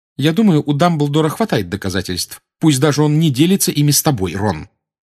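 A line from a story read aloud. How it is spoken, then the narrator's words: Sharp retort. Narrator (Russian): резко отозвалась Гермиона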